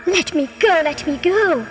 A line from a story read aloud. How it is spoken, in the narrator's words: cried the snake, who was most surprised and alarmed by the rabbit's trickery